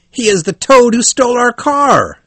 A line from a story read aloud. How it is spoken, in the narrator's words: cried